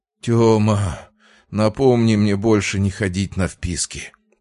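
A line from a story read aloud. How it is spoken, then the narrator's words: Groaning young man. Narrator (Russian): простонал парень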